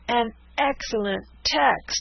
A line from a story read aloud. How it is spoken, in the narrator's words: cried the dragoons